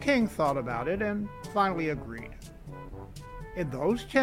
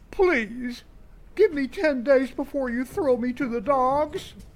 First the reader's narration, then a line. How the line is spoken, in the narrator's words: The minister fell on his knees and pleaded